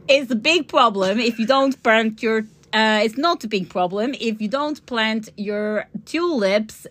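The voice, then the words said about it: Put-on Dutch accent. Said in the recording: “my Dutch accent ... that's terrible. The people in Holland would be like, that's not how we speak ... It's quite good.”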